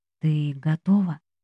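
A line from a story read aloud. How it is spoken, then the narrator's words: Quiet question. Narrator (Russian): тихо спрашивает Джинхо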